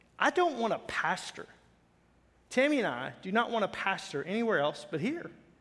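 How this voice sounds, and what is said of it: Noticeable regional accent. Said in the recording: “accent. You know, he's got the accent”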